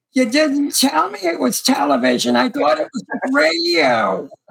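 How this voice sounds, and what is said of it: Good impression of a woman. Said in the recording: “That's a good impression of her”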